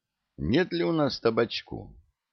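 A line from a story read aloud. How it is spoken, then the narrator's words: Guilty, apologetic question. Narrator (Russian): танкист виноватым голосом спросил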